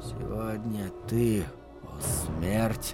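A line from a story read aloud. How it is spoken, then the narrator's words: Barely audible whisper. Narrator (Russian): прошептал он так тихо, что не услышал собственного голоса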